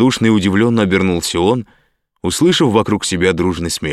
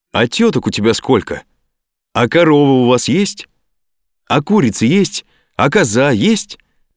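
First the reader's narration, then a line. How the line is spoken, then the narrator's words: Several people shouting. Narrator (Russian): закричали сразу несколько человек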